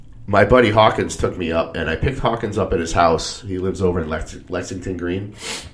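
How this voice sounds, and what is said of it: Rough, strained voice. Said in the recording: “my voice sounds awful ... I was screaming”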